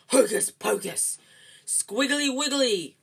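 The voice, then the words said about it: Fierce voice. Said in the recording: “in a fierce voice.”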